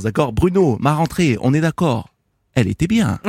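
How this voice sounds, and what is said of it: Put-on Corsican French accent. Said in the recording (French): “je vais l'y mettre à l'accent corse”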